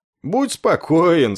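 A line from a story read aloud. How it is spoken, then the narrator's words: Smug reassuring snort. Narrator (Russian): снова самодовольно хмыкнув, уверил его Афрой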